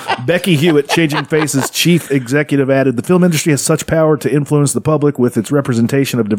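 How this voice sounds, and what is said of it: Usual voice. Nothing is said of it.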